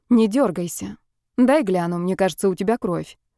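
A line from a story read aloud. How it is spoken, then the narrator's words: Calm. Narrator (Russian): спокойно проговорила Ева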